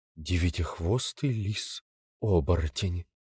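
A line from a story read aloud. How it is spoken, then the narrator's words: Dejected mutter. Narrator (Russian): Вэйхуай совсем раскис и стал бормотать себе под нос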